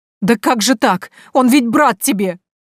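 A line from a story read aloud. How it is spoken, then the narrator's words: Sobbing. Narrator (Russian): всхлипнула Степанида Пантелеймоновна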